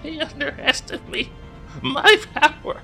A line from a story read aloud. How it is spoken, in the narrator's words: he's sort of laughing under his breath